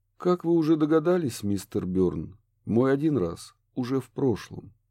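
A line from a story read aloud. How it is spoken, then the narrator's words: Gentle. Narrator (Russian): мягко продолжал Курт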